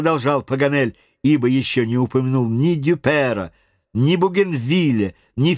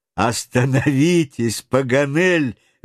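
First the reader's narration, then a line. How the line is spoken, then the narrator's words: Interjecting, laughing heartily. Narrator (Russian): вмешался хохотавший от души Гленнерван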